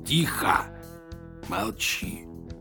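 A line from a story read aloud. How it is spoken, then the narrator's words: Hunted, hissing voice. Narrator (Russian): затравленным голосом прошипел Григорий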